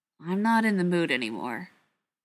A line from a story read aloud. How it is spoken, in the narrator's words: Ryan said flatly